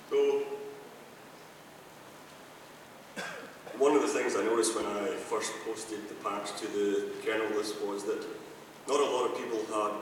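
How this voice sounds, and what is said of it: Scottish accent, voice congested. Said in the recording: “my Scottish accent. I do have the cold at the moment as well”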